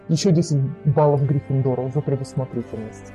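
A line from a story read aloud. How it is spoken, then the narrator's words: Muttering. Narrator (Russian): пробормотал профессор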